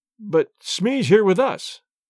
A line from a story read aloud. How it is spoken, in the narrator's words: cried